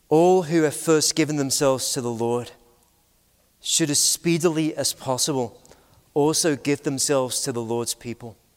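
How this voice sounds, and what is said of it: British accent. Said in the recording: “if you've got a British accent”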